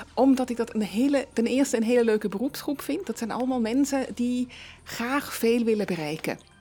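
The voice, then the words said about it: Swiss accent speaking Dutch. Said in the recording (Dutch): “ik hoor een accent, dat klopt. Ze is geboren in Zürich, Zwitserland.”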